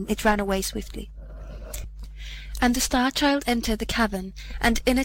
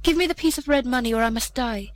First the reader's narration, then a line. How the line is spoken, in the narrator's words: the leper, cried out, and said to him